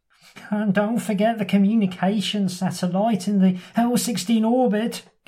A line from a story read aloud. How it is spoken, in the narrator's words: gasps the helijet pilot